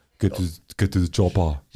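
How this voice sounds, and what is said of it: Imitates another person's voice. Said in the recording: “Can you do any Arnold?”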